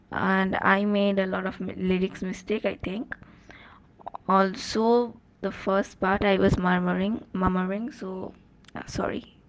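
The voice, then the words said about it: Very hoarse voice. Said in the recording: “My voice is very hoarse today”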